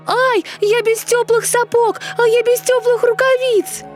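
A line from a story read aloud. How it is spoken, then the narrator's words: Shouting in the cold. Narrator (Russian): закричала Герда, очутившись на морозе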